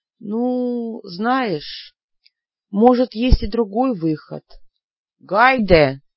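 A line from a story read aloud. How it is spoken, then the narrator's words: Suspicious drawl, just woken. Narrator (Russian): неожиданно с подозрением протянул проснувшийся кот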